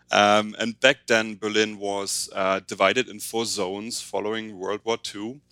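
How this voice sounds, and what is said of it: German accent. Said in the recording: “I grew up in Berlin, Germany, as you might be able to tell from my accent.”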